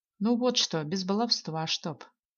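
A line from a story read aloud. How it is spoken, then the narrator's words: Father's stern order. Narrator (Russian): Строго наказал мне и Зое отец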